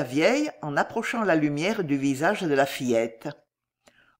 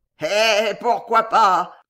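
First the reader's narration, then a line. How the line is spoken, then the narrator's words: Sneering. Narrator (French): dit-il en ricanant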